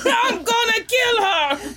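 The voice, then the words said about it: Shouted character voice, confused accent. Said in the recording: “My accent is getting confusing for myself. ... Someone said you sound like Danny Glover. ... Is Mr. Freeze part Cookie Monster?”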